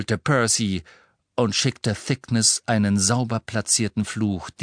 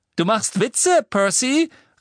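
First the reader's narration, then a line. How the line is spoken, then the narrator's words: Calling out. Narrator (German): rief Fred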